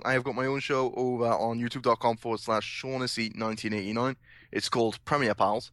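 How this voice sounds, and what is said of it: Welsh accent. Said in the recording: “my sexy Welsh accent.”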